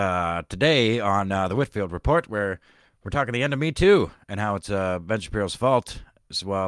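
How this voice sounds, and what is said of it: Usual voice. Nothing is said of it.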